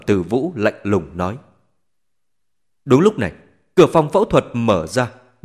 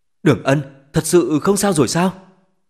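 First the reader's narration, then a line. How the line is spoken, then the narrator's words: Slightly trembling voice. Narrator (Vietnamese): Giọng nói của bà Thẩm hơi run rẩy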